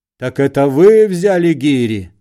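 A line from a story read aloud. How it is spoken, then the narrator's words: Shout. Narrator (Russian): закричал Остап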